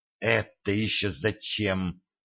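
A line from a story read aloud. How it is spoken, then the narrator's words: Hissed. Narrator (Russian): зашипела Дашка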